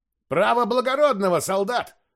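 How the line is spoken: Shouted from behind fence. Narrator (Russian): крикнул какой-то зритель из-за ограды

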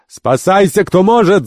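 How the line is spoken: Shouting. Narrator (Russian): закричал главарь банды

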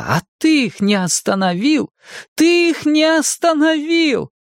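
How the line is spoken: Shouting. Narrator (Russian): Майя тут же закричала

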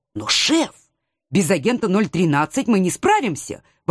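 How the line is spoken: Exclaimed. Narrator (Russian): воскликнула я

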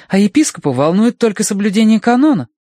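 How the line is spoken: Indignant. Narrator (Russian): возмущенно делилась она с мистером Данворти

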